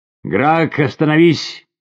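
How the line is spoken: Shouted. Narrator (Russian): крикнула она

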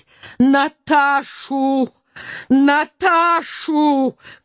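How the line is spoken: Shouting. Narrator (Russian): кричала

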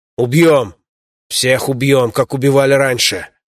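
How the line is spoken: Beast growling. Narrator (Russian): Зверь рыкнул

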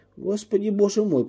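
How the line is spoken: Embarrassed mumble. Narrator (Russian): пробормотал я, покраснев от смущения

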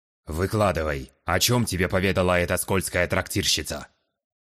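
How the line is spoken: Commanding tone. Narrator (Russian): Приказным тоном распорядился хозяин кабинета

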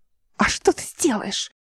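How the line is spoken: Mocking hiss. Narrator (Russian): издевательски прошипел Нейба

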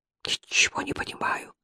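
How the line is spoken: Whispered. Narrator (Russian): прошептал он

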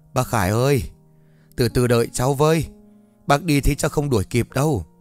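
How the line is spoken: Panting. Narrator (Vietnamese): Vũ phải thở hổn hển mà nói

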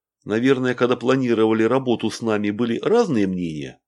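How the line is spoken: Plain. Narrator (Russian): спросил Игорь

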